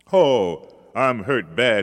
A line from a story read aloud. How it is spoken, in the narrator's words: he groaned